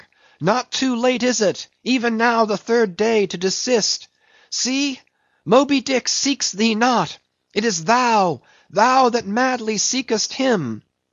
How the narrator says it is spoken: cried Starbuck

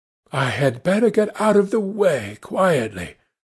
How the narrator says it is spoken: said earnestly

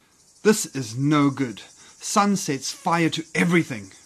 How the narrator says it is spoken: snarled Leopard

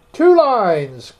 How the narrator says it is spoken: cried the Mock Turtle

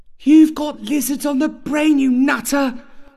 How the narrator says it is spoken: a mother would yell back

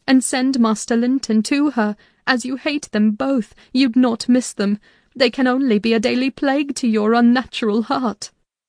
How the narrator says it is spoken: I pleaded

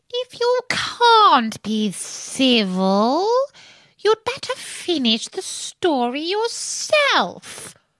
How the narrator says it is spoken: the Dormouse sulkily remarked

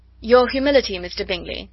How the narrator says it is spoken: said Elizabeth

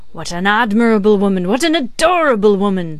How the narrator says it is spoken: exclaimed Jacques Three rapturously

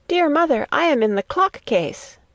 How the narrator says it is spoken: a soft voice cried

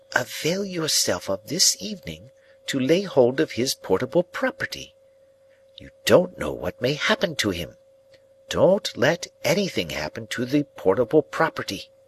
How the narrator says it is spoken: added in a solemn whisper

